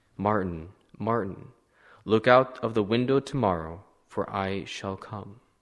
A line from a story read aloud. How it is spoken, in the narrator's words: A voice right in his room said softly